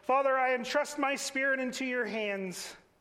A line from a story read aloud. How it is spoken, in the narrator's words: Jesus shouted